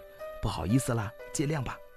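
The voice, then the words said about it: Quiet muttering to oneself. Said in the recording (Chinese): “小声的自言自语”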